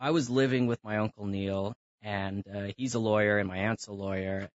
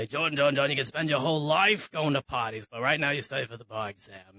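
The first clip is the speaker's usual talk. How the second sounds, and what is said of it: Commanding Brooklyn Jewish man impression. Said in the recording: “very commanding, you know, Brooklyn Jewish man ... that's my bad impression of him”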